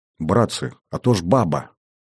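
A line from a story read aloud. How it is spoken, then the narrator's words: Whisper. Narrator (Russian): шепнул глазастый Бухряк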